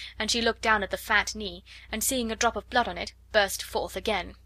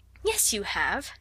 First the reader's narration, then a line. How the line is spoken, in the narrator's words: said Sarah cheerfully